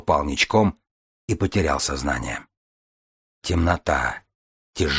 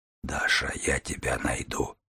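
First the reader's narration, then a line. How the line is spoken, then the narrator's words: Whisper. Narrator (Russian): Прошептав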